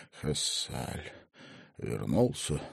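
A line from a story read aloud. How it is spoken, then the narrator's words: Groaning, trembling question. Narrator (Russian): Картрайт глубоко вздохнул, застонал, снова набрал в легкие воздуха и дрожащим голосом спросил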